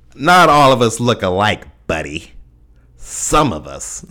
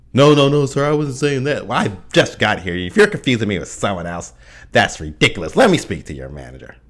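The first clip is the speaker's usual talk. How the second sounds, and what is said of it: Exaggerated white-sounding voice. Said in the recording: “That's my impersonation of a black person with a white voice.”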